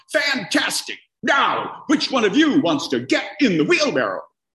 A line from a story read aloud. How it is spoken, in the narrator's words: shouts back